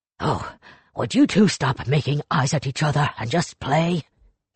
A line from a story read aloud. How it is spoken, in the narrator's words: Iwashi snarled